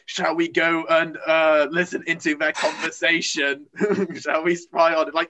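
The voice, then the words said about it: Half-hearted Dalek robot voice. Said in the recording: “that Dalek impression where you clearly went, I don't know how much effort to put into this.”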